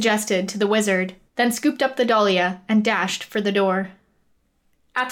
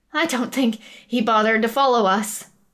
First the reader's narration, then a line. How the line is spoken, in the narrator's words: Athergas panted